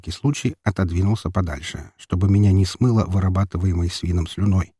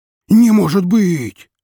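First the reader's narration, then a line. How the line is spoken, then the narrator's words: Loud joyful squeal. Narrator (Russian): У меня чуть уши не заложило от радостного визга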